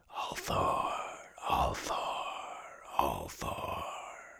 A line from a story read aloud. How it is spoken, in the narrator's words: a whispering thread through all the rest